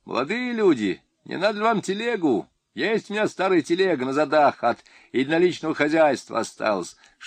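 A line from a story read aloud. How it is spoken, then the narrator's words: Old man calling after. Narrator (Russian): Дед крикнул вслед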